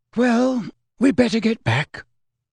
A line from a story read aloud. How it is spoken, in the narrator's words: sighed Mrs